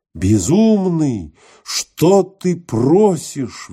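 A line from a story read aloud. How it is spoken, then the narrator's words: Exclamation. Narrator (Russian): воскликнул Гелиос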